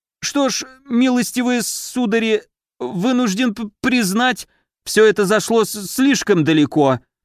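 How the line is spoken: Heavy stuttering. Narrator (Russian): проговорил он, заикаясь чуть ли не на каждом слове

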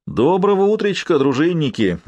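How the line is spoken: Forced cheerful greeting. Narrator (Russian): несколько наигранно бодро поздоровался Норман

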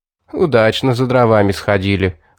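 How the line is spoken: Chuckling. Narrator (Russian): хохотнул Стэн

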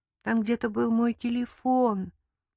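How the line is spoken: Timid. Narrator (Russian): робко сказал Виктор

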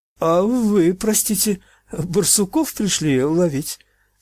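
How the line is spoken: Timid, breaking voice. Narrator (Russian): спросил он, набравшись храбрости, срывающимся робким голосом

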